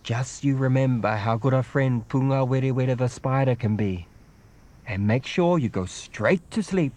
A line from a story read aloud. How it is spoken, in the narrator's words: she says